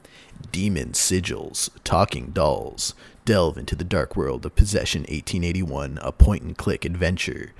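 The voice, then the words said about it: Dramatic movie-trailer narrator voice. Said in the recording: “Are you going to do the movie voice? ... The movie voice? For the Steam description, I could do it.”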